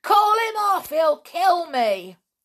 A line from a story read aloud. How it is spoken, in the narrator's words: Lou yelled to Nobby